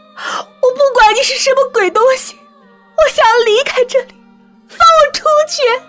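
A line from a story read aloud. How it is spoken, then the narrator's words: Shouting all around. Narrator (Chinese): 崔小小 对着四周大喊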